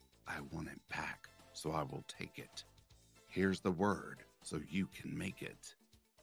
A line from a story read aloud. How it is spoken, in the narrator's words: whisper this